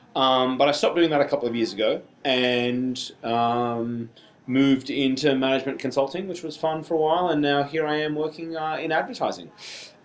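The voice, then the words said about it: Thick Australian accent. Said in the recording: “I have a very thick Australian accent”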